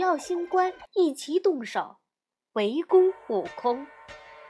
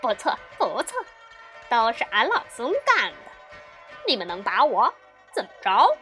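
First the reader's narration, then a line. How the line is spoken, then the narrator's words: Laughing. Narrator (Chinese): 悟空笑着说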